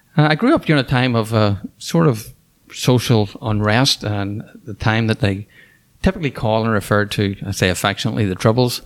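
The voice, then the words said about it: Northern Irish accent. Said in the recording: “What's that accent? ... So I'm from Ireland, and I grew up in Northern Ireland. I grew up in the city of Belfast”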